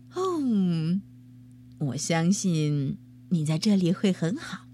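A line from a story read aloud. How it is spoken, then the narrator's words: Sighing. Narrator (Chinese): 妈妈叹了一口气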